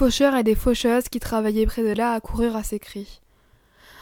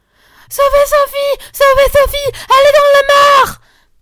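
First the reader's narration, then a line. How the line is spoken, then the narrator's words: Shouting. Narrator (French): criait Marguerite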